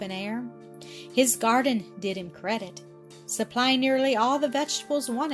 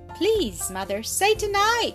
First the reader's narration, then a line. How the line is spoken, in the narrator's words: cried several little voices